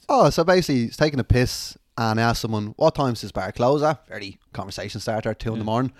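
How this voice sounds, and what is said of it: Irish accent. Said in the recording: “that's a funky accent. Where are you from? Oh, Ireland.”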